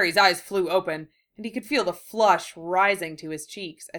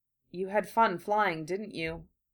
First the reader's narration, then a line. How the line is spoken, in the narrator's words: he said softly